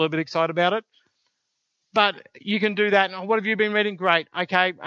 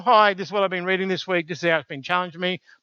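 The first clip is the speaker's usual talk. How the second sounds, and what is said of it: Flat monotone delivery. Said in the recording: “Probably don't do it in that monotone.”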